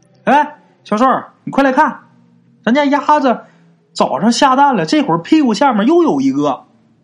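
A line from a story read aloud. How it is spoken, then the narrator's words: Shouting woman. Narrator (Chinese): 张小帅他媳妇儿啊，在他们家那个院子里边嚷嚷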